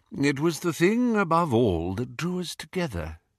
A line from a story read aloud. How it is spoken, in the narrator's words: he said quietly